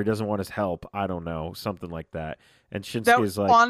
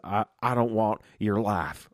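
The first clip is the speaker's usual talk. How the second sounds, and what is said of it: Imitates another person's voice. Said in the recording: “You have such a good AJ Styles accent. Like, right. It's really good.”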